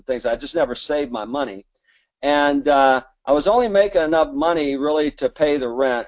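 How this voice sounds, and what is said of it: Southern US accent, Alabama. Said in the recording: “I'm from where? Lower Alabama. ... I have an accent.”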